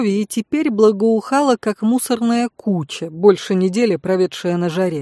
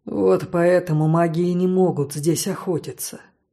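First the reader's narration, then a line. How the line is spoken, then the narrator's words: Unhappy voice. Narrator (Russian): несчастным голосом сказал Ван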